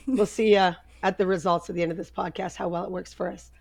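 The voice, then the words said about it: Husky altered voice from illness. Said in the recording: “It's just my sexy voice ... Maybe we should keep the sexy voice.”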